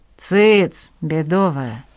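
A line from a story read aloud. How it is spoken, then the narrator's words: Merchant, threatening. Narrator (Russian): пригрозил ей купец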